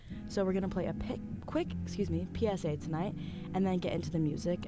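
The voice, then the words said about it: Strained, fading voice. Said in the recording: “I'm losing my voice really bad”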